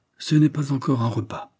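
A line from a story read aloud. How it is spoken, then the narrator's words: Cheerful announcement. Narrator (French): annonça-t-elle gaiement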